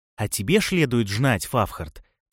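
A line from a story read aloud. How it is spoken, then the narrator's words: Lisping. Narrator (Russian): почему-то зашепелявил он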